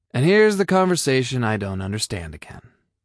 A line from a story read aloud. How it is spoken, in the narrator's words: Ryan sighed